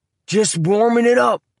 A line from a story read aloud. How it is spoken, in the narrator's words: yelled down